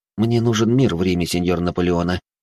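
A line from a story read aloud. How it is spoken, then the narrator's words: Calm. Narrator (Russian): спокойно ответил я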